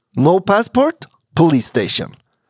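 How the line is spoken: Plain. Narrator (Swedish): sa de igen

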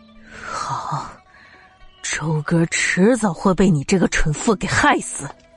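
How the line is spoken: Breathless, bitter, through gritted teeth. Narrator (Chinese): 险些一口气喘不上来，恨恨咬牙道

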